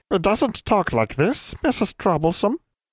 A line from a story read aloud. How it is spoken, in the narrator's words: suddenly his voice rose to a comical nasal squeak